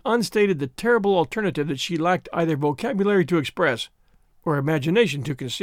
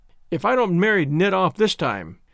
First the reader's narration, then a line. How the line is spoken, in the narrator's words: to her husband she said triumphantly